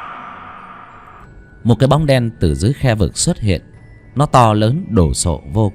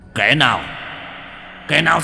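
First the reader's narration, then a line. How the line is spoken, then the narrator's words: Roaring. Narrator (Vietnamese): gầm lên một tiếng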